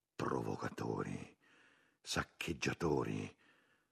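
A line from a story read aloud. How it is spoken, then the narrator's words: Group murmuring. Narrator (Italian): Gli altri cominciarono a mormorare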